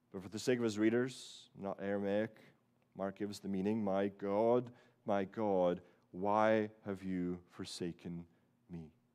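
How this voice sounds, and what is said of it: Mixed Scottish-Canadian accent. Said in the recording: “my weird Scottish com- Canadian combo accent”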